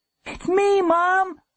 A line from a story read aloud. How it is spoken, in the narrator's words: yelled